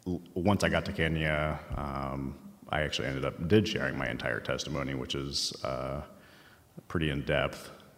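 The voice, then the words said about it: Emotional, voice showing emotion. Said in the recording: “you guys can already tell I'm a little emotional.”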